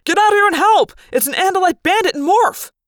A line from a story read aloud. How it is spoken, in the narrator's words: A human voice yelled something like